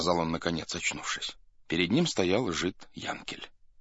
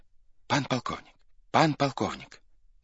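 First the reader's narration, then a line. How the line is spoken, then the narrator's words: Hurried, broken, urgent voice. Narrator (Russian): говорил поспешным и прерывистым голосом, как будто бы хотел объявить дело не совсем пустое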